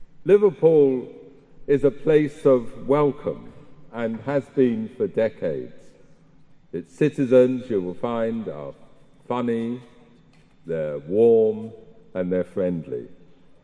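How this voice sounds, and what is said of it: Southern English accent. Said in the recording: “a southerner, as you can tell by my accent”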